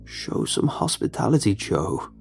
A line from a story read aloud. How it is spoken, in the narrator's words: Sundance interjected, his croaking voice trickling into my ears